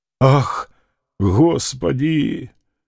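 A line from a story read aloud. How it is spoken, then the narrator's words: Sigh. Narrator (Russian): вздохнул Фома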